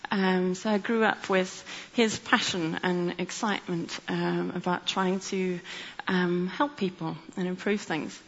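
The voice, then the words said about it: South African accent. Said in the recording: “you may hear from my accent that I grew up in South Africa”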